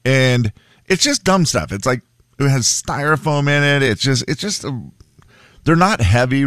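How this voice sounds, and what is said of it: Usual voice. Nothing is said of it.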